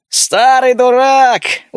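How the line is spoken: Smiling shout. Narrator (Russian): улыбаясь, выкрикнул Шершень

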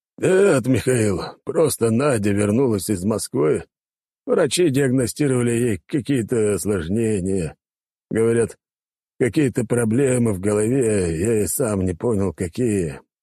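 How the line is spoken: Deep bass voice. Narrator (Russian): пробасил тот

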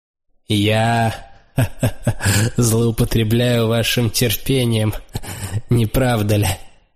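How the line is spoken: Laughing. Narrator (Russian): засмеялся он

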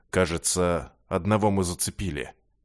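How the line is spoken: Uncertain mutter. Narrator (Russian): неуверенно пробормотал командир

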